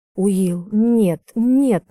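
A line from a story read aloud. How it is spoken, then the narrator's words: Insistent. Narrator (Russian): настаиваю я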